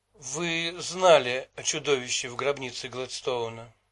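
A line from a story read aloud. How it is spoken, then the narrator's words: Flat colorless voice. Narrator (Russian): бесцветным голосом произнесла Китти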